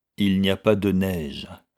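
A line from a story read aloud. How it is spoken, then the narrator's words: Icy cold reply. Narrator (French): répondit Sir Charles, d'un ton aussi glacé que la chose dont il parlait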